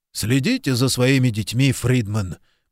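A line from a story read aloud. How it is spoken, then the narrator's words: Grumbled. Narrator (Russian): буркнул Куб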